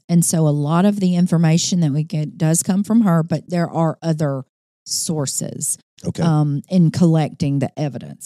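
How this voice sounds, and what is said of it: Strained, hoarse voice. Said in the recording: “Sorry, I'm losing my voice here.”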